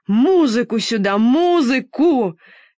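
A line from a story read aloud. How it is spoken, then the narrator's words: Shouting. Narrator (Russian): кричал император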